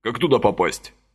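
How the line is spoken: Curt question. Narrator (Russian): отрывисто спросил он

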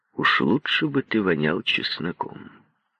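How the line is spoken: Said grimly. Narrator (Russian): Он мрачно сказал

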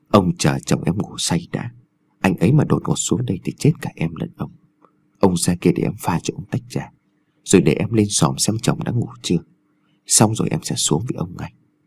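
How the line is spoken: Soft, coaxing whisper. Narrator (Vietnamese): dùng giọng nhẹ nhàng thỏ thẻ

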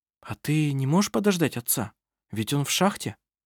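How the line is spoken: Soft question. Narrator (Russian): Анна-Мария мягко спросила

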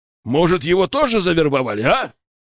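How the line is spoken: Barking general. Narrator (Russian): гаркнул генерал

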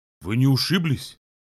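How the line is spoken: Frightened. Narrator (Russian): спросил испуганно, при виде ее падения с лошади

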